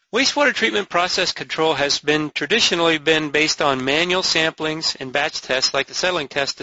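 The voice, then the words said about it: Midwestern American accent. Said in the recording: “I'm the one with the Midwestern accent.”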